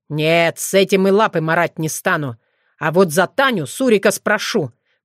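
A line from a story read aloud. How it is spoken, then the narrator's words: Fox growling. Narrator (Russian): прорычал лис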